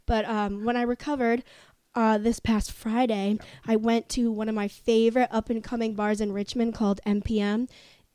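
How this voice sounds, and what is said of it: Hoarse, weakened voice. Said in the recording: “I lost my voice. It's still not back.”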